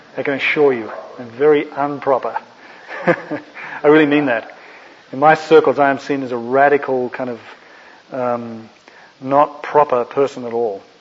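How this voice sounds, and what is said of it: Australian accent. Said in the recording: “my Australian accent ... what sounds to you like an English accent”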